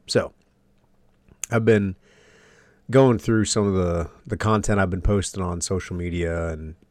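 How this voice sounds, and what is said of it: Sniffly, congested, tired voice. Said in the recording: “I'm still dealing with a little bit of COVID, so bear with me if my voice sounds a little different. Maybe it's not as sultry as normal. ... So a little bit sniffly, a little bit congested. Still dealing with a lot of exhaustion”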